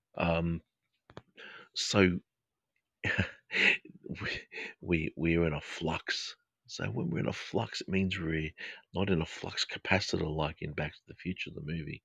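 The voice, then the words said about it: Australian English accent. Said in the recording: “my Australian English accent. It's a little bit different.”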